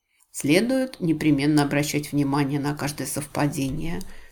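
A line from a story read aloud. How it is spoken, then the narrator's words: Muttered. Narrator (Russian): пробормотала мисс Марпл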